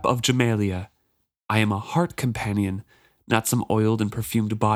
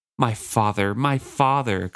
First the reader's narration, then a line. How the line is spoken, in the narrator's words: Cosgo whined